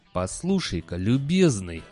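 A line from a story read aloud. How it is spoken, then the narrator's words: Growled. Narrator (Russian): зарычал декан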